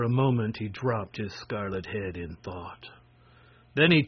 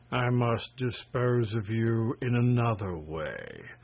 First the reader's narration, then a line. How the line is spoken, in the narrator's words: said Terebus, regarding the prince gloomily